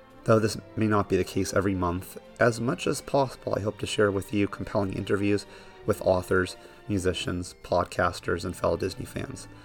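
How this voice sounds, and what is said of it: Congested, not-quite-normal sick voice. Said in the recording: “my voice may not be sounding quite normal ... I caught a really nasty cold ... my voice may sound somewhat off”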